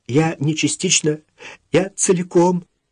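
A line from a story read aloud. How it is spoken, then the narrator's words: Sobbing. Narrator (Russian): всхлипывала Вика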